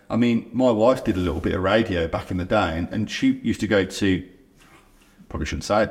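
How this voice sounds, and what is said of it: Birmingham (Brummie) accent. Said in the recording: “as a proud Brummie ... you've always been Brummie”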